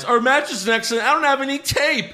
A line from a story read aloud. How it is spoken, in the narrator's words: Cedric cries